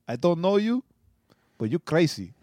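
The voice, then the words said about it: Imitated Arab accent. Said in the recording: “he had the accent ... he was Arab”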